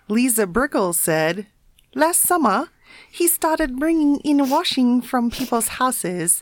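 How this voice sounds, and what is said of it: Southern English accent drifting Chinese-sounding. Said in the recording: “That's Chinese, surely... Is that an English accent?... It started out in the south of England and suddenly went a bit Peking.”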